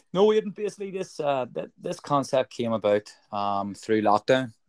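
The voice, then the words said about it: Belfast accent. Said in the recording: “the Belfast accent doesn't work pretty well with most Roscommon regions there. So hopefully you can understand me well enough.”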